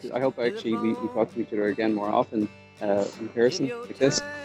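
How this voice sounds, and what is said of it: Irish accent. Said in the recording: “with his Irish accent”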